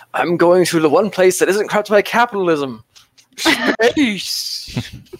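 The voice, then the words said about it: Half-hearted impression of another person's voice. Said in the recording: “I love your Tim Curry impersonation... That was impression. Half-hearted at best.”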